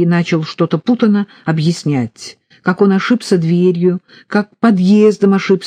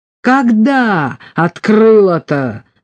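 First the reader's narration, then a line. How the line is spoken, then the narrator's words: Roaring. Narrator (Russian): взревели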